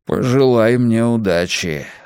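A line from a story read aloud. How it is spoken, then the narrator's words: Sigh. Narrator (Russian): вздохнул Мунк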